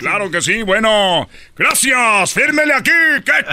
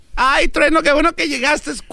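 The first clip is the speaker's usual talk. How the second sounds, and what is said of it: Put-on woman's voice. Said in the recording (Spanish): “toda la voz de mujer”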